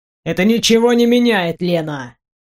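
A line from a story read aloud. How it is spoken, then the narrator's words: Gloomy. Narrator (Russian): мрачно сказал Максимилиан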